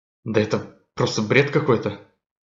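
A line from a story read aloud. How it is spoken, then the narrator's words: Grumbled under breath. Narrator (Russian): Пробурчал он себе под нос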